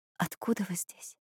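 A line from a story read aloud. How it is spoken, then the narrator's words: Barely audible whisper. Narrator (Russian): еле слышно прошептала Бьянка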